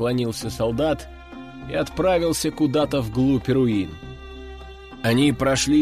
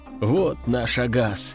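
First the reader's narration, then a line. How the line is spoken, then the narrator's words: Sighing. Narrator (Russian): вздохнул боец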